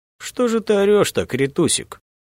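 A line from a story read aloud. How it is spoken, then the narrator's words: Muffled cooing. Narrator (Russian): глухо ворковал незнакомец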